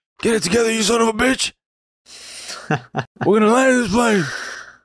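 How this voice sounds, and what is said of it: Impression of a film character's voice. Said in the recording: “That's actually a pretty good ... Buck impression.”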